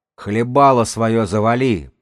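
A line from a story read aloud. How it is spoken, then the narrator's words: Growling. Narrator (Russian): прорычал старший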